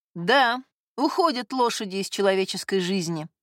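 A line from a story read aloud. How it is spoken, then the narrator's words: Sighing. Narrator (Russian): вздохнул Стенбок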